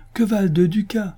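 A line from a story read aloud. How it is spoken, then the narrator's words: Exclaimed. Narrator (French): s'écria le chancelier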